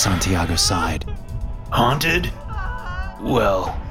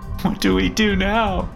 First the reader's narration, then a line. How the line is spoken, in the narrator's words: Emily said through her sobs